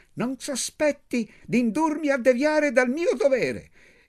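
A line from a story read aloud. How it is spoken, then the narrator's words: Shrill yell. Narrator (Italian): Urlò con la sua voce stridula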